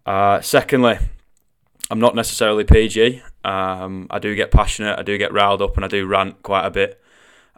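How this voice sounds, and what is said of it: Mancunian northwest English accent. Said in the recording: “I am Mancunian... I do come from the northwest of England, and I do have a little bit of a funny accent.”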